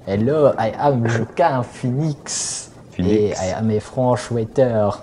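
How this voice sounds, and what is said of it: Exaggerated fake French accent. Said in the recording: “a racist French accent”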